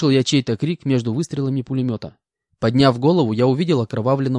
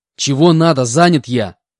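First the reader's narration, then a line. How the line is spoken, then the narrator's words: Angry shout. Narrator (Russian): Злобно выкрикнул я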